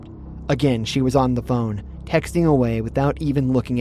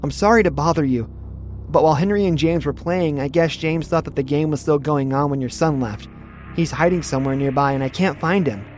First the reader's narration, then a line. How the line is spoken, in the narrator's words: I said